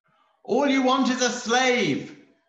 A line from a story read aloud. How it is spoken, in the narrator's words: screamed